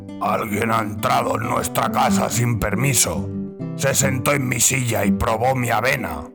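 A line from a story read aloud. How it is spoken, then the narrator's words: Deep angry voice. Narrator (Spanish): dijo con una voz grave de enfado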